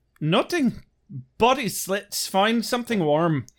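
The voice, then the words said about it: Exaggerated mock Irish accent. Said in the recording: “Angel and Darla's actual lines that I just horribly made fun of ... I'm not sorry to any of you Irish fucks out there ... I'm never going to stop making fun of your accent.”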